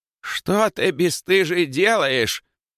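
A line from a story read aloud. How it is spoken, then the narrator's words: Old woman shouting. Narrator (Russian): закричала зеленая старушка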